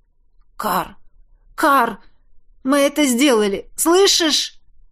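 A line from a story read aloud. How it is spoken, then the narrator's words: Hoarse breathless exhale. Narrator (Russian): я хрипло выдохнул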